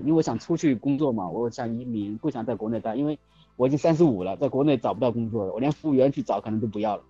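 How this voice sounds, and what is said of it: Southern Chinese accent in Mandarin. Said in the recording (Chinese): “你应该是南方的吧？听口音。”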